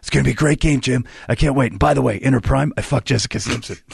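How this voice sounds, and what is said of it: Imitates another person's voice. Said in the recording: “I was doing filthy Tony Romo things he would say ... on his impression ... you had it at moments”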